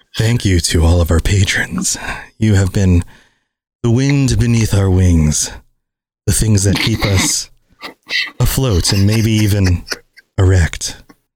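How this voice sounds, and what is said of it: Sexy, seductive voice. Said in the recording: “it in a sexy voice”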